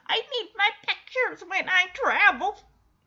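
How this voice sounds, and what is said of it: Poor imitation of elderly woman. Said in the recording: “that was a terrible old Rose impression”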